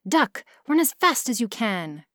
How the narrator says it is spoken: cried the rooster

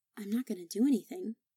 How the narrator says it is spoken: said Harry

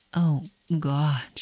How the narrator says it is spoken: she moans

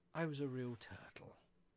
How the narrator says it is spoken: the Mock Turtle at last, with a deep sigh

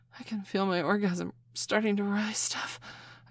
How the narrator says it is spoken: panted

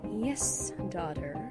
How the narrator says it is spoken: purred Chrysalis

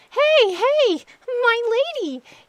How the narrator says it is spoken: he cried out

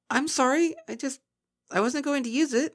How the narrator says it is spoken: spluttered Twilight

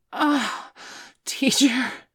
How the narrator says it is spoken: Bailey gasped, from the sudden rush of pleasure

